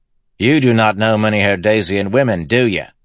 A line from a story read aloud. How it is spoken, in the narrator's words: Lopin asked, sighing